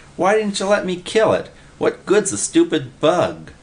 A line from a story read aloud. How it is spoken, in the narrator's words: Willie whined